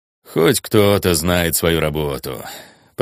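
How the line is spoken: Grumbled. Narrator (Russian): проворчал Дейд

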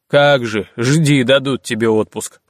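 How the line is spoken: Grumbling. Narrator (Russian): проворчал Генрих

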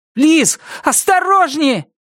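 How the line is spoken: Shouted warning. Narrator (Russian): Я выкрикнул предупреждение

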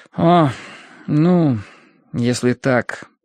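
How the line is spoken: Reluctant mumble. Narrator (Russian): промямлил он с неохотой

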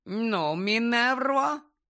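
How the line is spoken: Nasty voice. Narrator (Ukrainian): гидким голосом промовив Фадж

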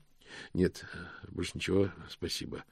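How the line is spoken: Mumbling. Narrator (Russian): пробормотал Мокриц

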